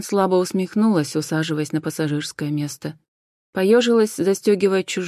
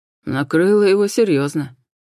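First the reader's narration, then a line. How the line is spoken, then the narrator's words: Scoffing grunt. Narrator (Russian): хмыкнул Хосе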